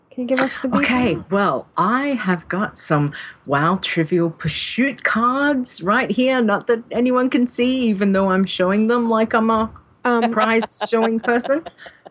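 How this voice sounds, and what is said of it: Australian English accent. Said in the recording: “I'm talking in my Australian accent”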